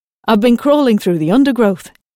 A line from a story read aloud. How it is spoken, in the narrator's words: he replied cheerfully